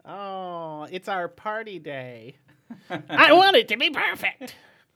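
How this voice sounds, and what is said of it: Impersonates a teenage girl's voice. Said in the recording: “That was my impersonation of a chick having her 16th birthday.”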